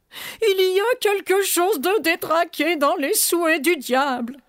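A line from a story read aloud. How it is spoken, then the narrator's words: Moaning. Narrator (French): gémit Farfouille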